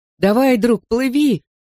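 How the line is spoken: Shout. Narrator (Russian): крикнул я

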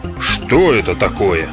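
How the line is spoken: Grumbling. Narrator (Russian): проворчал регулировщик

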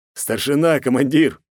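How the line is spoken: Snort. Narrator (Russian): хмыкнул Москаленко

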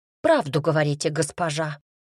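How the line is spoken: Rapid chattering. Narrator (Russian): затараторила она

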